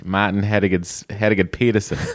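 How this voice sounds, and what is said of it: Put-on Boston accent. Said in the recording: “suddenly start talking in a Boston accent”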